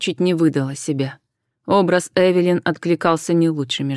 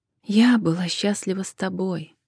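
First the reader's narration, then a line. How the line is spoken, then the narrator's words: Soft correction. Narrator (Russian): мягко поправила Джен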